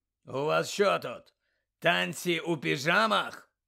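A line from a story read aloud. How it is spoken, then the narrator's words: Growling. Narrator (Ukrainian): прогарчав він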